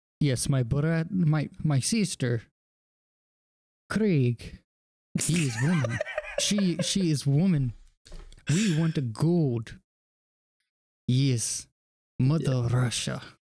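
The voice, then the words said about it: Poor put-on Russian accent. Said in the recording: “That's a shitty Russian accent”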